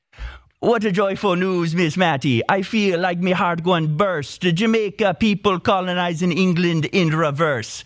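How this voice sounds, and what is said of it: Exaggerated put-on Jamaican accent. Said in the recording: “I think I have to read it in a hilarious accent. ... A hilarious Jamaican accent”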